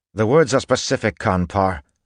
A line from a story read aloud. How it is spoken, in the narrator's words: Tensun snapped